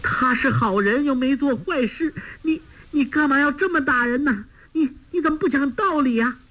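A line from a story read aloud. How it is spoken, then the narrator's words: Crying out in distress. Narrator (Chinese): 包惜若见丈夫如此受苦，哭叫着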